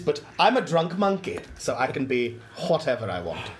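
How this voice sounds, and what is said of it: Unidentifiable put-on accent. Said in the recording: “I don't know what accent this is”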